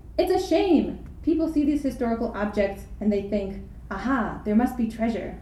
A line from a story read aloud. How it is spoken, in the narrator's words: one of my companions, Mehmet, exclaimed